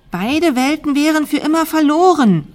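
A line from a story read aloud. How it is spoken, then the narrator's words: Calling across a distance. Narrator (German): rief Tina ihr von der anderen Seite zu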